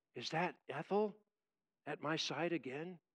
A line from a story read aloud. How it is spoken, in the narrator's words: whispers